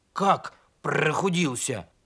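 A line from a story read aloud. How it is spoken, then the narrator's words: Grumbling donkey. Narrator (Russian): проворчал ослик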